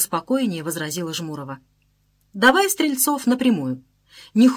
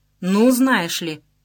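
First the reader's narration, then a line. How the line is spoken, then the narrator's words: Menacing. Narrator (Russian): грозно сказала Жмурова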